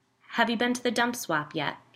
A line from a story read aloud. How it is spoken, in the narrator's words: she asked